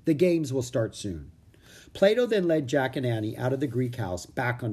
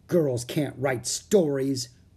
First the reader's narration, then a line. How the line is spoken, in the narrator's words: grumbled Annie